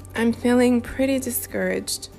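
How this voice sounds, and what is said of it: Discouraged-sounding voice. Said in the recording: “in a discouraged sounding voice.”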